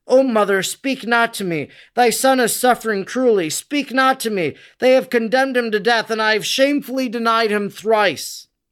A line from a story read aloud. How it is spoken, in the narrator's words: in the deepest woe, Peter exclaimed